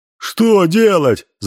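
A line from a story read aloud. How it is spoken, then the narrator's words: Shouting. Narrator (Russian): закричал Никодим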